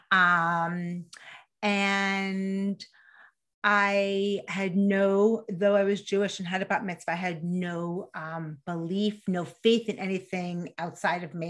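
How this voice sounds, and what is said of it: New York accent. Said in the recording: “I grew up in New York, in case you couldn't hear the accent.”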